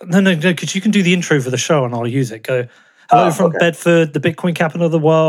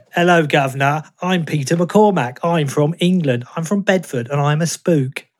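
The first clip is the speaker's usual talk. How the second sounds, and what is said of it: Terrible stereotypical British accent. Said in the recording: “It's like a standard terrible. British accent ... I can do an impression of you doing an impression of me”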